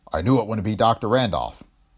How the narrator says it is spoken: he said

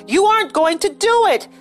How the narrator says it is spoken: George shouted again

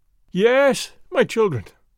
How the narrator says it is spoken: cried

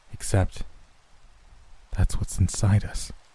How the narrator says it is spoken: Matt murmured

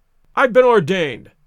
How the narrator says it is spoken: cried the old rascal

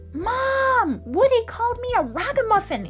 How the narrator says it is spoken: Annie yelled

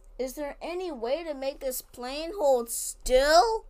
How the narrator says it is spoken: He shouted

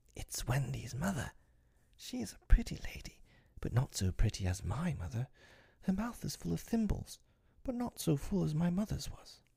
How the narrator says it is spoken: he whispered to Tink

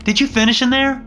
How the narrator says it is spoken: She shouted

